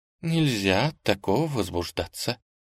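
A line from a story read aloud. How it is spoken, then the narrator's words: Muttered. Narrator (Russian): она пробормотала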